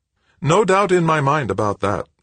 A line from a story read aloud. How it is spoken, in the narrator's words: said Brennard in his sweet tenor voice